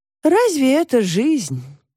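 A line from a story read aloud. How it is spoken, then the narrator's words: Sighing. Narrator (Russian): вздохнула Варвара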